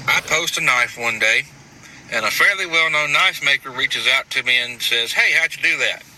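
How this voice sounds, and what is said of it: Noticeable regional accent. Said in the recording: “you fucking start laughing at this accent ... I'm not laughing at the accent.”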